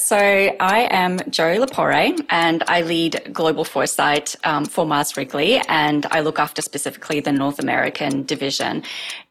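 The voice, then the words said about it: Australian accent. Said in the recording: “I have actually moved from Australia, which you can probably gather from my accent”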